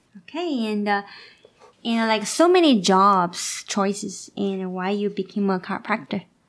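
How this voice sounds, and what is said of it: Asian-accented English. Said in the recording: “I kind of have like a Asian accent ... Asian Cajun like accent”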